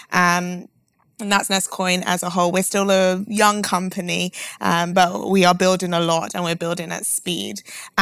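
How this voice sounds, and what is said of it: London accent. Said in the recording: “My accent may give it away. I'm from London”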